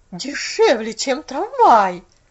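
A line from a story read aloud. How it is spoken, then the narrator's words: Bewildered exclamation. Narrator (Russian): воскликнула миссис Керри в недоумении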